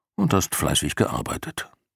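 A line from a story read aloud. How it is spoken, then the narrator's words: Low murmur. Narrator (German): raunte Jor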